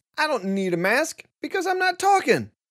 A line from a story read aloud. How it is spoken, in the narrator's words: this caused him to shout